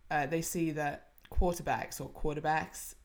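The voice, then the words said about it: Bad put-on American accent. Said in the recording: “that was a really bad accent... Apologize to any Americans listening”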